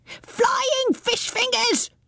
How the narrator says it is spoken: shrieked Rumbucket

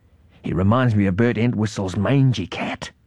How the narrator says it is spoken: whispered Mum

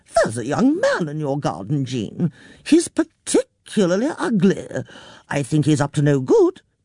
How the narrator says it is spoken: she said cheerfully

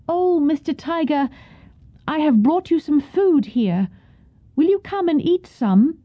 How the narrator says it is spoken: called out

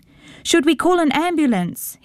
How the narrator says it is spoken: he heard his father shouting

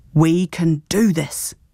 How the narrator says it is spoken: Granny Gale said firmly

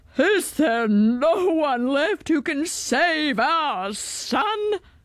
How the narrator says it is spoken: cried the king

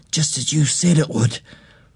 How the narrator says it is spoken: whispered

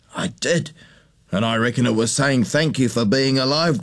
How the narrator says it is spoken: Grandpa chuckled

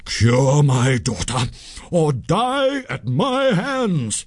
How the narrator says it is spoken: he cried in a terrible voice

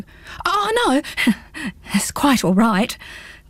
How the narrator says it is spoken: gulped Pins

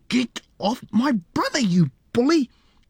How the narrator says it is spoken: Lisa screamed angrily

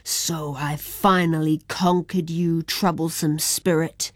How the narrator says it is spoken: growled Kushi

